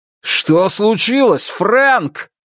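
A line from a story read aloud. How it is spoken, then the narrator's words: Shouting. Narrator (Russian): закричал он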